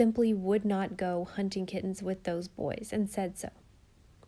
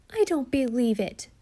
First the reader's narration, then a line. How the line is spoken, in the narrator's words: cried Jen